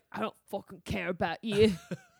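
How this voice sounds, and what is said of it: Put-on accent imitating a character. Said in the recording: “Was that a good accent?”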